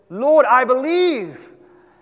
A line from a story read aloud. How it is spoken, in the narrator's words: cried out with tears and said